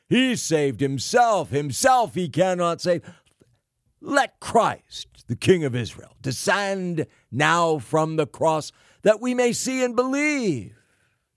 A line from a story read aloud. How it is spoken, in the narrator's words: the chief priests, the Jewish hierarchy, mocking, said among themselves with the scribes